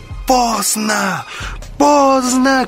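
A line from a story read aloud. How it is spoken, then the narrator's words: Shouting. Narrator (Russian): кричал Вольф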